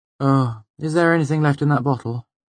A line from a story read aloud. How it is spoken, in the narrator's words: She asked wearily